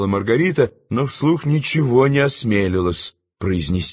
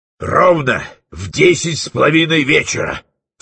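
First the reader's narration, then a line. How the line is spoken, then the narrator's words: Stern speech. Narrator (Russian): строго глядя заговорил Фиелла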